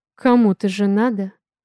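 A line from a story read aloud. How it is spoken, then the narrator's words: Cold reply. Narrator (Russian): Холодно ответил Дрейк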